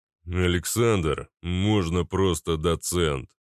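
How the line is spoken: Big man's deep bass. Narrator (Russian): произнес здоровяк густым басом

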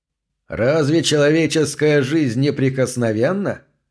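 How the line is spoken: Loud, to himself. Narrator (Russian): громко спросил сам себя

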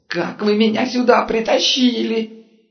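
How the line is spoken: Merchant yelling frantically. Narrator (Russian): вопил вышедший из гипнотического транса купец

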